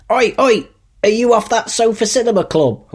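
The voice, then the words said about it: Put-on Cockney London accent. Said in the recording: “Your London accent, your Cockney is good.”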